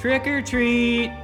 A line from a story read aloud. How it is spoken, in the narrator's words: I yelled